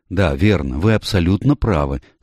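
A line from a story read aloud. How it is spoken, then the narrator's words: Agreeing. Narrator (Russian): согласилась ее собеседница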